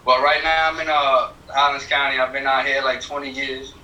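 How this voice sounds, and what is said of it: Slight Bronx New York accent. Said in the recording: “I'm from the Bronx, originally... I can hear the little accent a little bit.”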